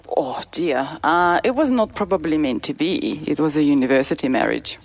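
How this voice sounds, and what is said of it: Ukrainian-accented English. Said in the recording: “Ukraine. ... You have an accent.”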